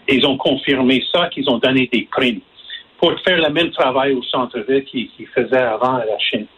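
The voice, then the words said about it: English-speaker's accent in French. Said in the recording (French): “je m'excuse pour euh, mon accent ... je suis un anglophone”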